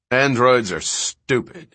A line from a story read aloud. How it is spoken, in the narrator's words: he said savagely